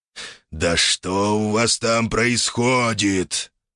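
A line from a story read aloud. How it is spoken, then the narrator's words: Displeased growl. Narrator (Russian): недовольно прорычал полубог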